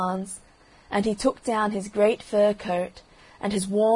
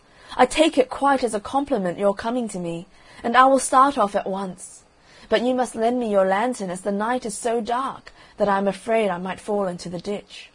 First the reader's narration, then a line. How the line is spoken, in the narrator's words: cried little Hans